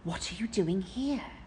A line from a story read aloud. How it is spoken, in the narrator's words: he whispered